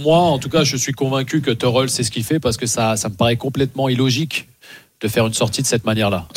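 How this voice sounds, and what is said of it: Luxembourgish-accented French. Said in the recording (French): “Quand ... dit Tourelle, il parle de Tourelle... Non, mais le Luxembourg, c'est comme ça... C'est le Luxembourg, on dit comme ça... Excuse-moi d'avoir un bel accent”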